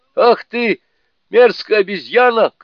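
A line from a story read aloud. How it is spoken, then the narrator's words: Shouting. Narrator (Russian): кричал он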